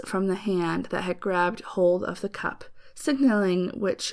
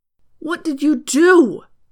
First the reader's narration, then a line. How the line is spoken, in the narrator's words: he cried out